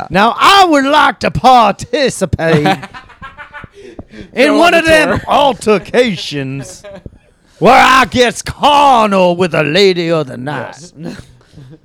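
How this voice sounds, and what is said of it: Put-on American Southern accent. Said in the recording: “doing the southern accent.”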